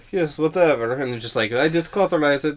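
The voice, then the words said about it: Dracula-like Finnish accent impression. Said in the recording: “I like how you give him a Dracula accent. ... the Sampa Finnish accent”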